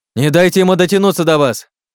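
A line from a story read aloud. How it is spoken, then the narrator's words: Shouted warning. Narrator (Russian): крикнул Олег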